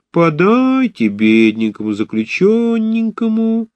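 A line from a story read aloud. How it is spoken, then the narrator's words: Laughing singsong. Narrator (Russian): смеющимся свежим лицом, говорила нараспев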